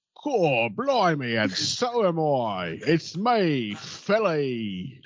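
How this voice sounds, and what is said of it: Put-on British accent. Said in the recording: “how's your British accent ... the wrong British accent”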